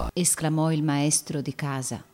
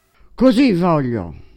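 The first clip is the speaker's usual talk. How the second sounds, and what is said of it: Menacing ogre-like character voice. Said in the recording (Italian): “con la voce di un'orca che ha la voglia di mangiar carne fresca”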